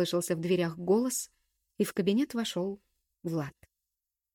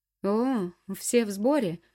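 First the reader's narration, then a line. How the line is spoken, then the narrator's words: Snort. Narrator (Russian): хмыкнул он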